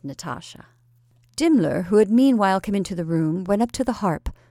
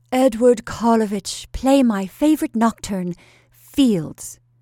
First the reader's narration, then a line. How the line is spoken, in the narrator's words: cried the Countess from the adjoining room